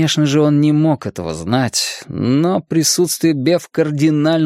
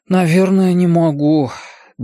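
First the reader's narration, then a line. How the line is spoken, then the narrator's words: Sighing. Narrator (Russian): Бен вздохнул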